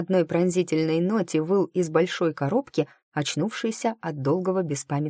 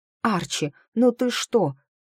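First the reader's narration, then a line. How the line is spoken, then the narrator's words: Exclaiming. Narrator (Russian): воскликнула я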